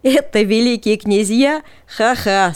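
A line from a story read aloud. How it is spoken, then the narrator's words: Laughing. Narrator (Russian): смеялся Жанета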